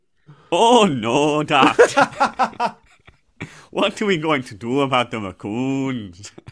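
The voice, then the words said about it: Poor attempt at Canadian accent. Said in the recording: “that isn't your Canadian accent ... This is ... attempt at a Canadian accent. He's not trying to be like Pakistan ... Do you think that's Pakistani?”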